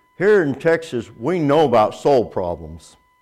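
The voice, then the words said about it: Nolan Ryan impression, mumbled Texas accent. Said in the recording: “Nolan Ryan, in his typical Texas accent, which sounds like he's got a mouthful of marbles”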